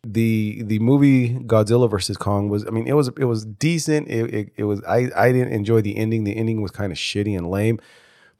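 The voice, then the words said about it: Congested, stuffy voice. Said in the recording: “my voice sounds. I am congested ... I sound pretty stuffy.”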